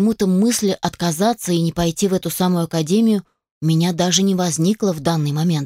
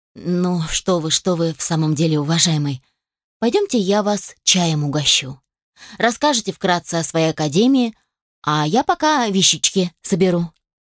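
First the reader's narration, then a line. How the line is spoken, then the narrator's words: Sighing speech. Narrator (Russian): Вздохнула и сказала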